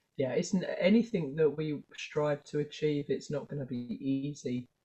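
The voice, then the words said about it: Slightly sick-sounding voice. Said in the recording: “my voice is a bit funny. I picked up a bug this week”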